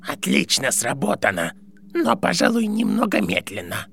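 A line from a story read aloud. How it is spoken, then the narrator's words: Creaky voice. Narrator (Russian): проскрипел его голос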